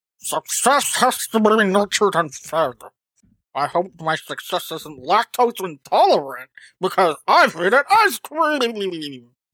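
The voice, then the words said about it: Silly manatee character voice. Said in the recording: “in my manatee voice ... It was more like Coach Z than anything else ... it's like Coach Z and Zoidberg had a little child”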